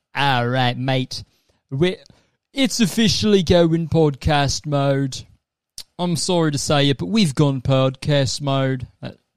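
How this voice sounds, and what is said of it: Put-on Australian accent. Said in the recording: “I accidentally turned into an Australian accent at the end”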